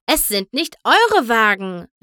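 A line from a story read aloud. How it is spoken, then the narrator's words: Angry group shout. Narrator (German): riefen sie zornig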